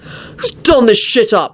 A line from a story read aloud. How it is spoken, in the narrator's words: He snapped